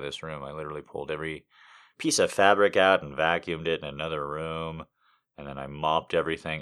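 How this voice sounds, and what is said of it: Slightly scraggly, rough voice. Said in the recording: “you can hear my voice is just a little bit scraggly”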